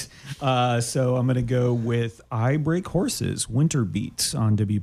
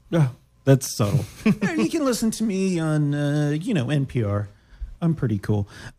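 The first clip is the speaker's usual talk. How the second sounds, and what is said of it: Imitates another person's voice. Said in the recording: “my Brendan Byrne imitation ... that's very ... Good, actually.”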